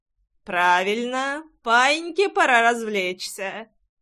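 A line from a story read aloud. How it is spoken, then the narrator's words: Loud. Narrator (Russian): он говорил достаточно громко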